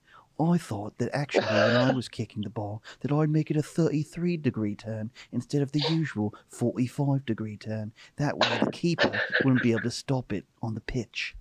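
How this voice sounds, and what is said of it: Imitates another person's voice. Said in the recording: “David Beckham.”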